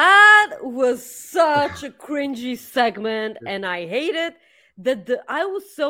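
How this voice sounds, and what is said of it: Usual voice. Nothing is said of it.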